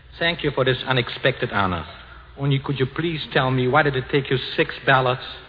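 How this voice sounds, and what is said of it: Slight Austrian accent. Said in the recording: “saying with an imperceptible Austin accent”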